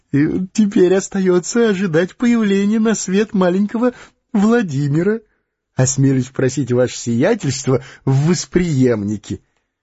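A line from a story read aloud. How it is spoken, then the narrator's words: Suppressed laughter. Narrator (Russian): Модест Алексеевич приложил два пальца к губам из осторожности, чтобы не рассмеяться громко, и сказал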